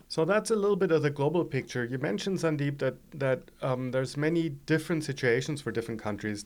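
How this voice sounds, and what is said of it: German accent. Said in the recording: “as you all can hear from my accent, I'm German originally”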